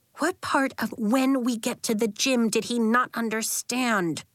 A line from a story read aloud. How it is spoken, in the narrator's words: Willa grumbled